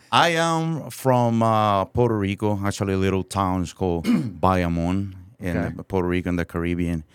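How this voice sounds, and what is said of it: Noticeable foreign accent in English. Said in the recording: “you do obviously have an accent”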